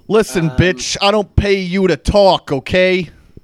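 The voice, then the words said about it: Tony Stark impression. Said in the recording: “That's what Tony Stark sounds like. ... a very, very good impersonation.”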